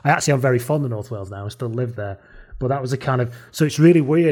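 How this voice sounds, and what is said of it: Lancashire accent. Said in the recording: “I've never lost my Lancashire accent”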